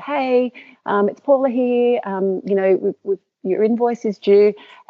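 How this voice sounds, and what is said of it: Sweet, extra-polite voice. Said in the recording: “in my nicest voice”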